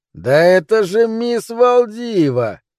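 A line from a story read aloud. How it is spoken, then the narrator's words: Shouted. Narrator (Russian): крикнул он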